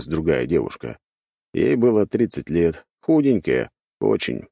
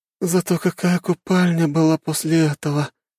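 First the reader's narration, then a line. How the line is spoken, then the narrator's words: Groan. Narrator (Russian): простонала другая девушка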